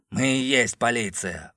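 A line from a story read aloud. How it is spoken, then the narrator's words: Cold interruption. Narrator (Russian): холодно прервал его Олдридж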